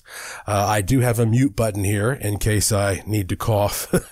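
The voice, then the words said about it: Subdued, sick-sounding voice. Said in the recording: “my voice is not going to be as exuberant as usual ... I got a vicious bug ... sore throat, coughing, stuffy nose”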